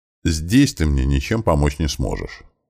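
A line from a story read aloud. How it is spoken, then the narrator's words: Calm explanation. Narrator (Russian): спокойно объяснил ему я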